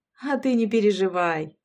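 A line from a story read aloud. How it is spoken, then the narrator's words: Chuckle. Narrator (Russian): хохотнула Габриэла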